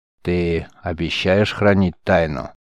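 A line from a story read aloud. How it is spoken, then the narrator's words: Solemn, mysterious question. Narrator (Russian): Торжественно напуская на себя таинственный вид, спросил великий магистр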